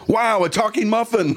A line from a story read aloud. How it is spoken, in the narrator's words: The other one shouted